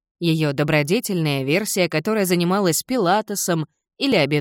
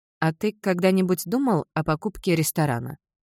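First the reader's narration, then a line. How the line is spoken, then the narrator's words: Plain. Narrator (Russian): спросила Элис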